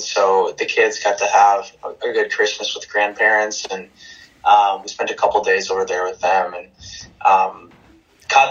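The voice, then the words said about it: Voice slightly affected by illness. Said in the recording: “you can probably tell in my voice a little bit, we all came down with a little bit of a bug”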